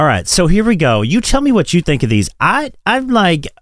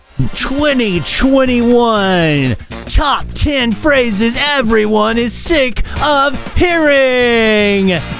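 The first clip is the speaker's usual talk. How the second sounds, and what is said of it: Game show host voice. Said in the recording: “I just had my game show voice on”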